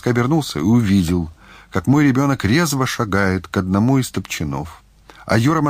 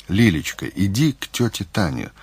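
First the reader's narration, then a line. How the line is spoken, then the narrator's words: Gentle, affectionate. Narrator (Russian): ласково произнес Мазаев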